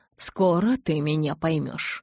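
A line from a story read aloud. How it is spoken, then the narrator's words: Mutter. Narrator (Russian): пробормотал Эдвард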